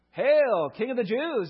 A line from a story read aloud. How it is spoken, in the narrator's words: they mocked